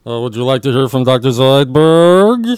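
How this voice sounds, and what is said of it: Dr. Zoidberg cartoon character voice. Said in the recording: “give us your Futurama ... do that voice”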